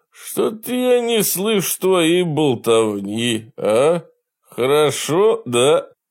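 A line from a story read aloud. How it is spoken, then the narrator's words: Mocking laughter. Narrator (Russian): Бак расхохотался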